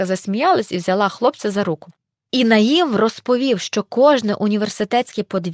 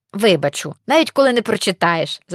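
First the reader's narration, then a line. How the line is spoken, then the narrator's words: Girl's laugh. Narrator (Ukrainian): засміялась дівчинка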